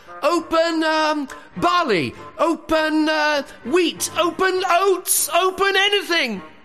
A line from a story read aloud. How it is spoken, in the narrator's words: Kazim was shouting inside the cave